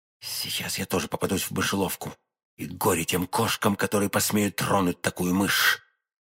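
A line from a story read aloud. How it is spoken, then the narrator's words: Whispered. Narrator (Russian): он тихонько постучал, прошептав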